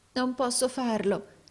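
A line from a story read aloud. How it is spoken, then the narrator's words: Trembling exclamation. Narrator (Italian): esclamò il compagno tremante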